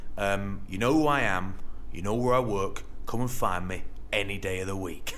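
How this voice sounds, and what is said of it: Imitates another person's voice. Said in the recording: “Good impression that, though, mate ... he's Danish”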